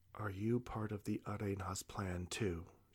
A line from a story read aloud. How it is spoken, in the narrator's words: she whispered back